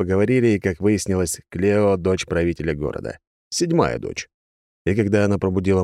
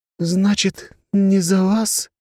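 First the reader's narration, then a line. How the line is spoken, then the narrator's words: Sad sigh, young woman. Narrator (Russian): грустно вздохнула девушка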